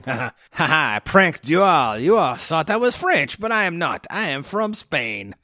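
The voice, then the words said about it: Attempted French accent impression. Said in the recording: “I don't know what that accent is. I'm trying to do Jean Reno, but it's coming out in a really.”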